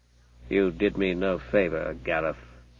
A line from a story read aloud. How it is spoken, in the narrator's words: said the man grimly